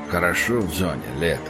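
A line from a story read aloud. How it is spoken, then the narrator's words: Mutter. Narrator (Russian): пробормотал пригоршня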